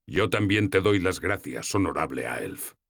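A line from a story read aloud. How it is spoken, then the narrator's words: Plain. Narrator (Spanish): me dijo Ilstan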